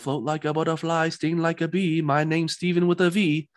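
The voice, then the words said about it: Quoted line in attempted British accent. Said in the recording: “What was that accent? Was that your, it was wasn't, that your best British accent? ... No, I wasn't trying.”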